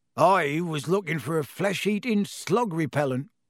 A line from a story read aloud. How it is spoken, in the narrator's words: growled Hagrid